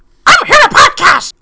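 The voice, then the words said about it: Obnoxious cartoonish character voice. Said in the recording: “your voice is a little obnoxious”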